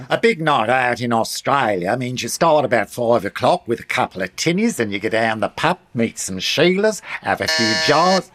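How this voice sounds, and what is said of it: Put-on Australian accent. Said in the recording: “Why are you doing an Austrian accent? ... That's Australian.”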